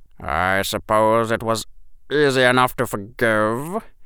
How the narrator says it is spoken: Severus said, and his voice was odd

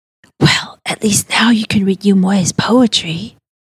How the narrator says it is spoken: Talia whispers back

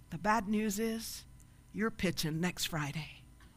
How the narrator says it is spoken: Abe sighs for a minute and whispers

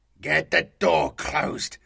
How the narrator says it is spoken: the Astartes snapped

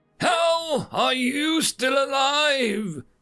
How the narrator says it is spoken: Maharia screamed as Jack shook her

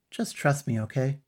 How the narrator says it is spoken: sighed

